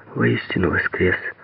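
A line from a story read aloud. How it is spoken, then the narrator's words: Quick, surprised, frightened whisper. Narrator (Russian): быстро прошептала Лена, удивленная и испуганно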